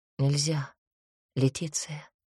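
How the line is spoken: Quiet, self-persuading. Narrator (Russian): тихо проговорил Клаус, уговаривая, кажется, больше себя

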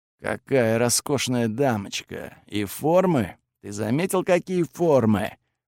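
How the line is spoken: Admiring mutter. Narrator (Russian): восхищенно забормотал

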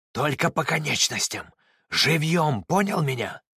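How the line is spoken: Whispered shout. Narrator (Russian): Иосиф надеялся, что Митин не слышит его шепот-крик

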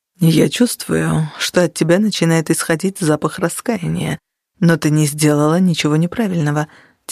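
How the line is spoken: Quiet. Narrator (Russian): тихо сказал Нигер

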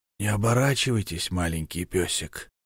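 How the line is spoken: Hoarse male voice. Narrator (Russian): произнес хриплый мужской голос

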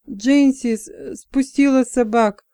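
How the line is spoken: Hoarse breathless exhale. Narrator (Russian): хрипло выдохнул он

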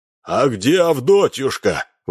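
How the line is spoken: Roared. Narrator (Russian): взревел Минц

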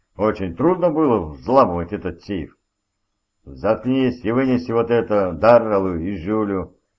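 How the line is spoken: Barking, harsh. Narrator (Russian): рявкнул Мур

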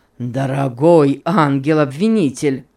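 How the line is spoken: Exclamation. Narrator (Russian): воскликнул Сент-Клер

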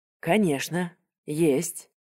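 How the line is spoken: Plain. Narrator (Russian): сказала она

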